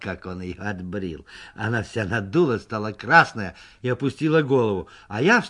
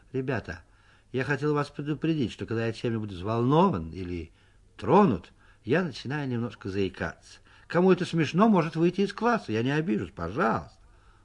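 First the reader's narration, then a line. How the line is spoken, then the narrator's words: Calm, slightly embarrassed. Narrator (Russian): слегка покраснел и сказал в сторону Соньки нормально и спокойно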